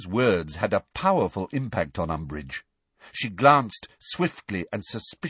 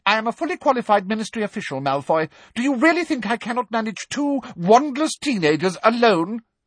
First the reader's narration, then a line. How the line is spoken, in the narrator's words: asked Umbridge sharply